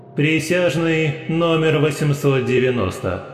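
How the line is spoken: Booming voice. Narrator (Russian): прогремел голос

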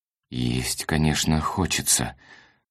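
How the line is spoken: Mumbled. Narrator (Russian): промямлил он

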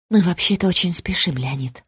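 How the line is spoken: Soft reply. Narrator (Russian): мягко ответила Вера Николаевна

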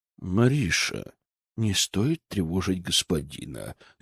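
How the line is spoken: Guilty mutter. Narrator (Russian): Виноватым тоном пробормотал мужчина

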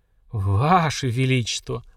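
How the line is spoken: Stunned breathless gasp. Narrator (Russian): ошалело выдохнула девушка

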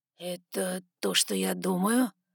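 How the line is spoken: Hoarse breathy exhale. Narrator (Russian): Хрипло выдохнул Саймон

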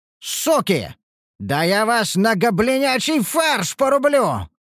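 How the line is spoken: Furious roar. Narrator (Russian): взревел я

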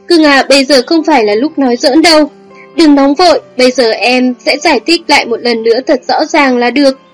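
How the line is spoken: Groaning, flustered. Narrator (Vietnamese): Anh ta chật vật rên rỉ kêu

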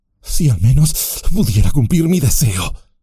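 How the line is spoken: Sighing. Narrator (Spanish): suspiró

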